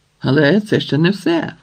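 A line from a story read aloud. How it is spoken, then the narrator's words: Jester exclaiming. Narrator (Ukrainian): вигукнув блазень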